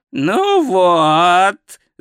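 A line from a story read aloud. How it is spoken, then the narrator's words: Yelled, wailing. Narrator (Russian): завопил Ринсвинд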